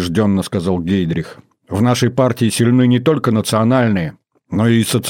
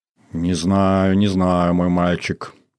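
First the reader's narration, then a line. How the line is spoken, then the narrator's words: Quiet mutter. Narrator (Russian): тихо пробормотал Гитлер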